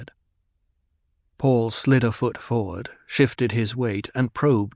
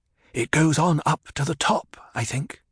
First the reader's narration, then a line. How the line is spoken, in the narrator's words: he whispered